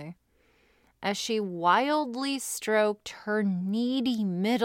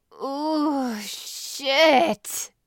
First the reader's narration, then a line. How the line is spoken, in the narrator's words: she moaned out loudly